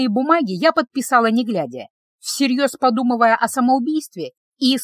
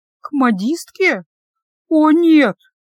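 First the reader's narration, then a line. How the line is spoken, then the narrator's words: Groaning. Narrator (Russian): я застонала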